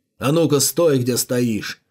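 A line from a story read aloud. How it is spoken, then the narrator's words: Bark. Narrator (Russian): рявкнул мужчина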